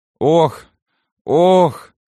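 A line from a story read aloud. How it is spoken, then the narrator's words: Moaning. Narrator (Russian): Стонал Иона Маркианыч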